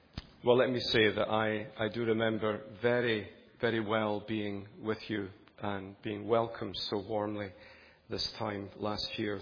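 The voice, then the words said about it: Soft, mellow Scottish accent. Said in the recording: “my soft, semi-mellifluous Scottish accent”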